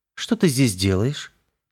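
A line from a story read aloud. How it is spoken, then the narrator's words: Casual question. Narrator (Russian): Небрежным тоном поинтересовалась оправившаяся Крестовская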